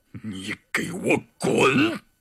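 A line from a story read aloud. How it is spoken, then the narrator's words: Low growl. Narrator (Chinese): 他低吼道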